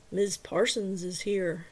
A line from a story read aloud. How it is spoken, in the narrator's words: Travis said flatly